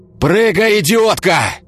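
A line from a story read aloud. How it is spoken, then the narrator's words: Roaring firefighter. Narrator (Russian): взревел пожарный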